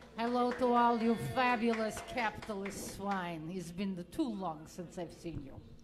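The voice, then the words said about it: Colonel Ninichka character accent. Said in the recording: “I love when she's in that. That accent is just like... with that accent”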